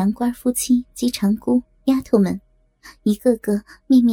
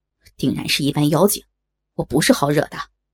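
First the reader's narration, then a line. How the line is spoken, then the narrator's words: Furious. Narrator (Chinese): 杨官大怒道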